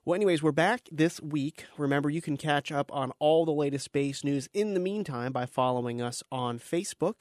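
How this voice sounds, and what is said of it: Congested, sick-sounding voice. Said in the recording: “if you can't tell from my voice, I came down with a bit of a cold”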